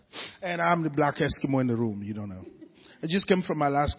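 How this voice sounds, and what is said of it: Very thick accent. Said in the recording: “I have a very thick accent.”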